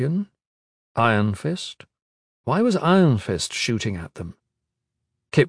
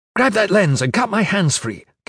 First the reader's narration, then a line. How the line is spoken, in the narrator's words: Caris barked